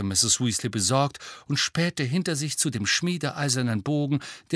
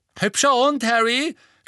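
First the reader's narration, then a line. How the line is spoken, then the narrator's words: Boy calling out. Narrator (German): rief ein großer Junge mit Rasterlocken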